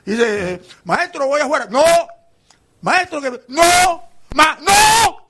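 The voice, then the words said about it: Shouting loudly. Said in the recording (Spanish): “No grites tanto”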